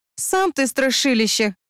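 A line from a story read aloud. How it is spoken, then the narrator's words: Scornful snort. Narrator (Russian): фыркнула я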